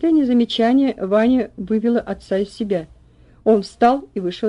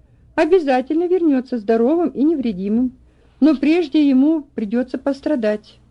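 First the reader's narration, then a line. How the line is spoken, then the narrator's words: Sad. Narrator (Russian): говорила она печально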